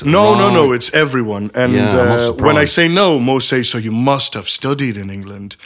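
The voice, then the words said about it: Sounds like an English accent. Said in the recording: “it's the most commonly asked question to me while working at Patrico is like, are you English?”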